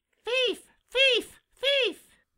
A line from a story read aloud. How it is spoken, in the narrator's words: he screamed in his harshest voice